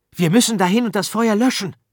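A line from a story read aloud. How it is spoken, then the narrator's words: Excited speech. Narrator (German): sagte Arthur aufgeregt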